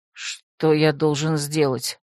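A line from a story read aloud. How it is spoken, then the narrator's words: Dejected question. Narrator (Russian): упавшим голосом спросил собеседник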